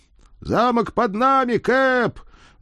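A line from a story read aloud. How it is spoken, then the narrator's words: Loud distant yell. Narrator (Russian): громко проорал кто-то с верхушки мачты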